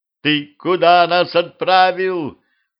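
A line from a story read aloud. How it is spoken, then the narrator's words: Vampire woman yelling over noise. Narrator (Russian): Пытаясь перекричать шум, заорала вампирша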